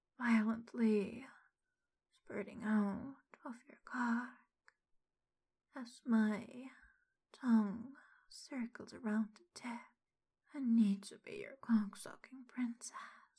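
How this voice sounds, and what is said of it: Aroused, sultry voice. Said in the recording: “hear the arousal in my voice”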